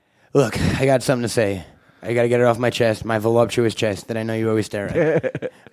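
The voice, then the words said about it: Raspy Jewish New York male voice. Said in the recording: “I talk like a Jewish dude from New York ... You need to quit smoking.”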